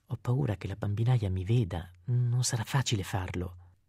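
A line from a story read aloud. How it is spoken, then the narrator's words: Man whispering. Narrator (Italian): lui le bisbigliò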